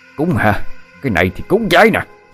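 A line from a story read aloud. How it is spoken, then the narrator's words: Screaming. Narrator (Vietnamese): ông Long vừa gào thét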